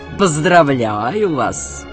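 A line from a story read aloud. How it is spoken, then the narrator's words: Mocking. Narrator (Russian): тот насмешливо поклонился ему и сказал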